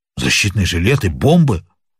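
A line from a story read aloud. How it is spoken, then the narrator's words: Two villains exclaiming together. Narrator (Russian): воскликнули одновременно оба негодяя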